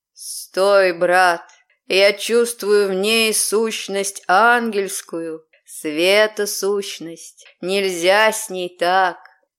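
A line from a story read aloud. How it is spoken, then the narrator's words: Slow, distant-sounding voice. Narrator (Russian): Медленно раздалось над ухом, но словно откуда-то издалека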